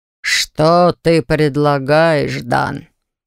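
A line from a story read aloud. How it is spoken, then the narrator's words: Muffled, hollow question. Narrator (Russian): глухо спросил властитель ледяных чертогов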